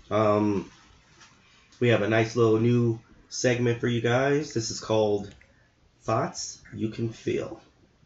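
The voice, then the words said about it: Sultry, seductive voice. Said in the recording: “Ooh, so sexy ... Sexy voice you got going.”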